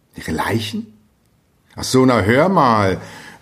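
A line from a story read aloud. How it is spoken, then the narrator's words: Called out, breaking into laughter. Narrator (German): rief Hans Castorp, und plötzlich geriet er ins Lachen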